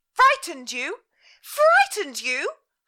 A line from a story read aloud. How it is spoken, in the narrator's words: cried